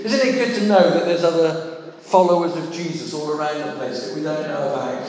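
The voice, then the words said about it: Somerset southwest English accent. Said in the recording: “You can probably tell from my accent I'm down in that, you know, southwest corner somewhere, being a Somerset boy.”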